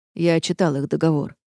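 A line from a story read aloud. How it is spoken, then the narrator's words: Calm reply. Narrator (Russian): спокойно ответил Рейнард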